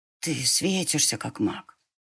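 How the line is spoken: Boy whispering. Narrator (Russian): прошептал мальчишка

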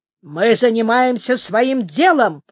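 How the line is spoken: Barked. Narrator (Russian): рявкнул мэр

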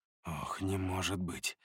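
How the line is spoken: Pained mutter. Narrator (Russian): пробормотал я, и у меня заныло сердце, когда я узнал идущую впереди Эву

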